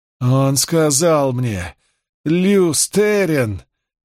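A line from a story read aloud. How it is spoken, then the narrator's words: Near moan. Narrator (Russian): чуть ли не простонала Ланфер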